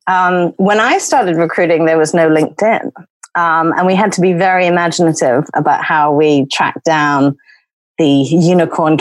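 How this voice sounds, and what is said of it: Non-local accent. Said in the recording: “I'm not from here, as you may tell by the accent”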